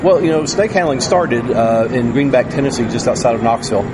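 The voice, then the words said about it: Tennessee Southern American accent. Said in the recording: “tell by the accent”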